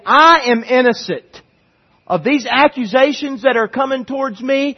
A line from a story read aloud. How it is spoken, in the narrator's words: somebody yelled from the crowd